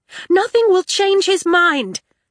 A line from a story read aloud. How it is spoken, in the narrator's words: Tella shouted